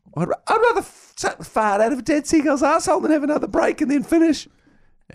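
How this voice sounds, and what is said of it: High-pitched imitated voice. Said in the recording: “Why did this guy have a high voice?”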